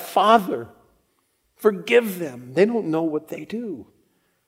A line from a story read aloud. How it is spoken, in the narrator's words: he cried out